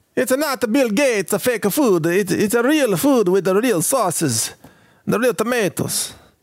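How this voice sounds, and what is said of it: Put-on Italian accent. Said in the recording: “That's my Italian accent for the day.”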